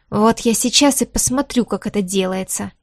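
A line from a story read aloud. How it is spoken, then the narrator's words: Snorting. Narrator (Russian): фыркнул он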